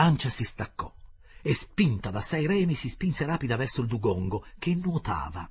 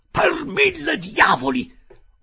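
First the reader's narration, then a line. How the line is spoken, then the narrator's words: Furious yelling. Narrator (Italian): urlò furente il canadese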